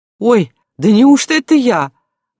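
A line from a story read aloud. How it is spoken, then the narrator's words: Surprised exclamation. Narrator (Russian): воскликнула Аграфена Семеновна, увидя портрет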